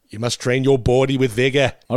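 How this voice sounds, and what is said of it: New England Eastern Seaboard accent imitation. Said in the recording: “the New England sort of Eastern Seaboard accent ... I just really liked JFK's accent”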